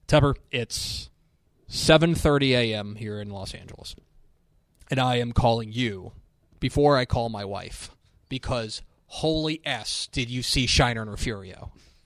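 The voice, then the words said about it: Imitates a sports play-by-play announcer. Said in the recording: “my Mark Folliwell impression ... the voice of the Mavericks”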